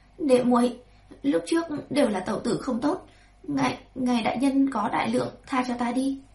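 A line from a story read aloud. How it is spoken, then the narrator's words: Humiliated stammering plea. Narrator (Vietnamese): Hàn Thị mắt đầy nhục nhã lắp bắp xin tha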